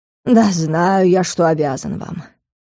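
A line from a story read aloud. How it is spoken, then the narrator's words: Sigh. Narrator (Russian): вздохнул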